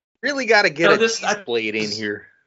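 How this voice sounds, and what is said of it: Put-on Midwestern American accent. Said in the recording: “Midwestern accent ... That's pretty spot on, dude.”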